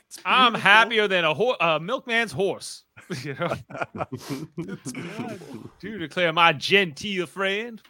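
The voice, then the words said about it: Put-on old Southern gentleman accent. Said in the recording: “do the accent the entire time ... Basically, you're just doing a Colonel Sanders impression.”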